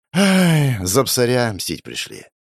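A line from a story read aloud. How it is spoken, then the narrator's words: Sighing. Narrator (Russian): вздохнул я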